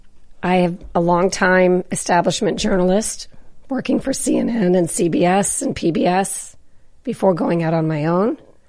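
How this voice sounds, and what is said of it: Strained, unwell-sounding voice. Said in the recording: “my voice is a little funky today ... just rest your voice and take it easy and we'll keep the hot tea coming”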